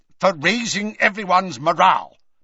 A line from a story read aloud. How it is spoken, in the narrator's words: snapped Scrimgeour